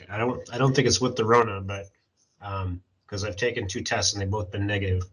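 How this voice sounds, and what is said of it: Sick, rough trashed voice. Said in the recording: “apologize for my voice. I am sick ... my voice is kind of trashed right now”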